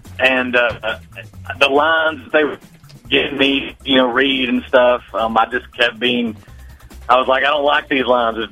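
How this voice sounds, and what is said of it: Thick southern accent. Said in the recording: “your thick southern accent”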